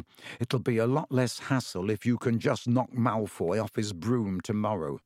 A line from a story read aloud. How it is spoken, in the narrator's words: Ron muttered to Harry